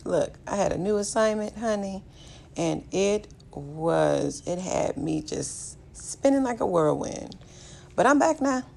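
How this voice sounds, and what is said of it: Raspy voice. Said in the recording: “my voice sounded a little bit raspy today”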